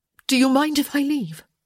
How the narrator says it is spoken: she blurted out

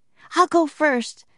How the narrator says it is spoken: said Annie cheerfully

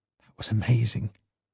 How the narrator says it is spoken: Whispered

